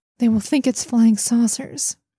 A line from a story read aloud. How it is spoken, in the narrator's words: one of the group said to her, almost as an aside and in a wry tone